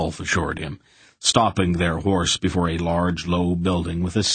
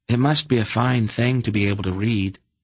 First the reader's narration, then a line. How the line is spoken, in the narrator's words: Geryon said wistfully